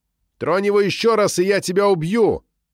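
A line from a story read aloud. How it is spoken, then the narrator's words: Shout after someone. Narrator (Russian): крикнул я вслед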